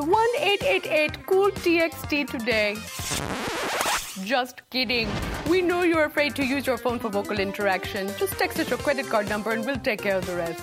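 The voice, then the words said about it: Convincing put-on Indian accent. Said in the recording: “the Indian accent. Coming from an Indian, that's not a very good or very hard way to talk, but you had it down.”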